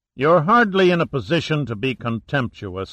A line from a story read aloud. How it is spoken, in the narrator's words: Saracen said coldly